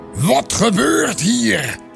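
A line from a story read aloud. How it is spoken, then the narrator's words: Angry roar. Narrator (Dutch): bulderde hij boos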